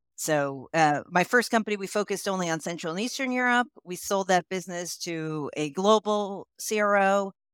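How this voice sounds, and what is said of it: American accent. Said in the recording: “you can tell from my accent that I am originally, I'm from the United States”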